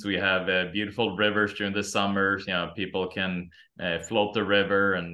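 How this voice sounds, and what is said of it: Swedish accent. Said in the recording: “I'm originally from Sweden. ... that's before where your accent comes from”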